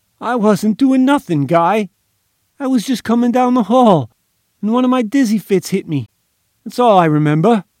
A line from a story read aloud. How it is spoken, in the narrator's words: Gimpy pretended sudden fright, whined